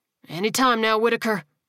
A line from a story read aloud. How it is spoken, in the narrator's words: he grunted